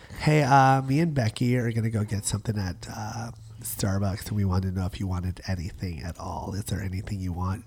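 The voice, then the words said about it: Raspy low vocal fry voice. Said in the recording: “It's that Kardashian raspy voice ... vocal fry ... It's got vocal fry, eternal vocal fry ... where you go right down here”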